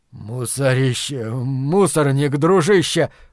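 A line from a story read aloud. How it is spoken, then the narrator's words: Wheezing rasp. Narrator (Russian): просипел он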